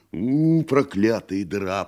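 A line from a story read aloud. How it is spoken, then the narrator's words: Growl. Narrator (Russian): прорычал гость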